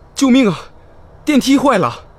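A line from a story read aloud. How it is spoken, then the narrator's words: Panicked loud shout. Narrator (Chinese): 我 大声喊道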